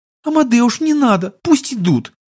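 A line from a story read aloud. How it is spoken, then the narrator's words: Girl's squeak from behind. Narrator (Russian): пискнула из-за спины рыцаря девушка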